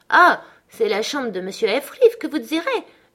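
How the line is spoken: Surprised discovering exclamation. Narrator (French): s'écria-t-il comme s'il faisait une découverte

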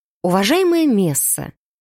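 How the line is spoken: Calm address. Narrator (Russian): спокойно обратилась я к блондинке

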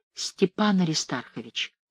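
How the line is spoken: Whisper. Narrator (Russian): шепотом произнесла

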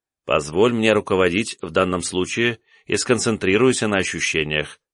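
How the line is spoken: Calm. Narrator (Russian): спокойно продолжаю я

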